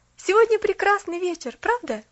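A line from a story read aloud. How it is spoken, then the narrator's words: Cheerful. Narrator (Russian): Поллианна весело сказала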